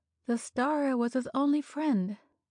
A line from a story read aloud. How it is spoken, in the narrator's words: sighed Deborah Scoville